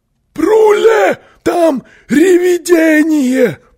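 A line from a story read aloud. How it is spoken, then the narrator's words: Yelling. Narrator (Russian): завопил он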